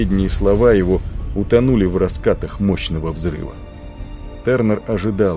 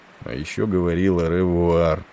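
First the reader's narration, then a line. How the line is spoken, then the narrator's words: Mumbled to himself. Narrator (Russian): пробормотал он, никому не обращаясь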